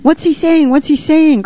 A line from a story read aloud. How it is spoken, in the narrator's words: cried the children, almost in unison